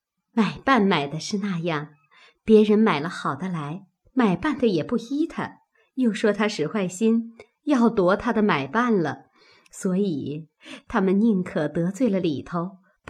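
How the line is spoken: Laughing. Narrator (Chinese): 平儿便笑道

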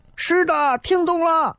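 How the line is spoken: Frantic shouting. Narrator (Chinese): 这个学生就跟疯了一样在那喊

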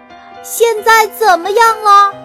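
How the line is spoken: Loud question. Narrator (Chinese): 熊大大声问

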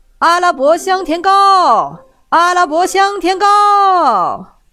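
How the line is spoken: Merchant's hawking call. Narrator (Chinese): 商人叫卖道

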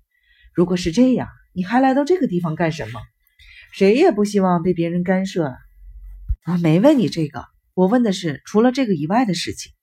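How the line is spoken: Cold sneer. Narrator (Chinese): 大块头冷笑了一声

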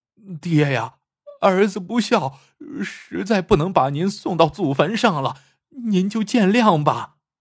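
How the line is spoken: Terrified crying. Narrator (Chinese): 索财主吓坏了 哭道

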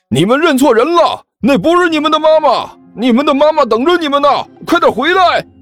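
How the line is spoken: Shouting while chasing. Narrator (Chinese): 这人贩子一边追一边喊

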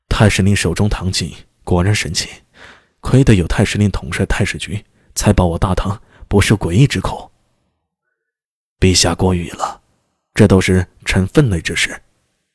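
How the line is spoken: Sighing. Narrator (Chinese): 向李春风叹息道

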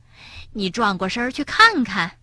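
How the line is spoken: Sighing. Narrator (Chinese): 蹦蹦叹了口气，对他说

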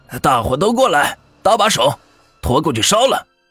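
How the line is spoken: Shouting. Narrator (Chinese): 这先生就喊

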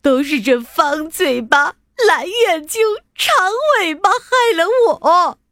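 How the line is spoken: Crying. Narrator (Chinese): 他哭着说

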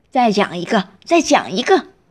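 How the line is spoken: Loud. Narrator (Chinese): 爸爸大声的说

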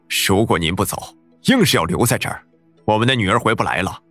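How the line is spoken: Firm pleading. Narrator (Chinese): 有人 恳求，声音坚定

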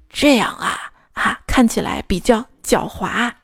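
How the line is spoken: Quiet whisper. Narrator (Chinese): 大笨熊小声的跟小白兔说

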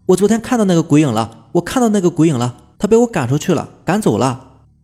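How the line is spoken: Repeated frantic shouting. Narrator (Chinese): 我嘴里不断的叫喊着

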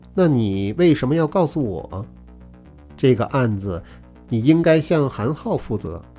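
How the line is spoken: Cold. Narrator (Chinese): 穆剑云…冷冷地说

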